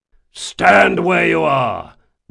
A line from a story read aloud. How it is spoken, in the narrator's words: the eye in the lead bellowed